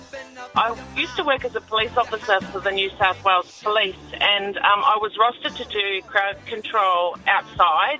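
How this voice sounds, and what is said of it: New Zealand accent. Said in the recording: “accent ... brought up in New Zealand ... couldn't understand a word you said”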